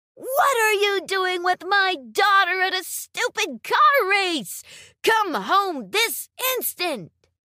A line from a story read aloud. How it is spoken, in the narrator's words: She yelled at him for about an hour